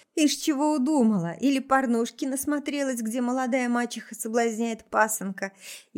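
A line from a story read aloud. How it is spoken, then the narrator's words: Laughing. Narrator (Russian): Я рассмеялась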